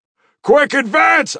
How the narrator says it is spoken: I shouted

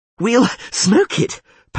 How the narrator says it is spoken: panted Dandelion

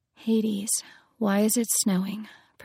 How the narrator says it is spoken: Persephone whispered

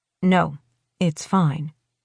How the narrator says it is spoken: she says a little stiffly

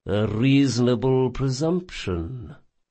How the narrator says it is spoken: purred Requin, growing slightly warmer in his manner

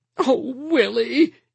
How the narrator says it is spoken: Edith said pleadingly

